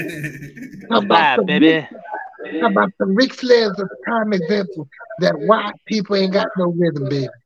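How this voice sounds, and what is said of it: Imitates another person's voice. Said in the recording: “when I do it in the accent, I sound like Dusty Rhodes.”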